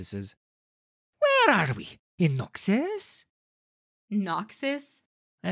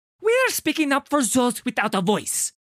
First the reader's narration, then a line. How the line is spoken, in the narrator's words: he snaps